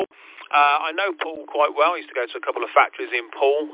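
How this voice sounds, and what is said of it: Birmingham accent. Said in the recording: “I'm originally from Birmingham, so my accent does throw some people”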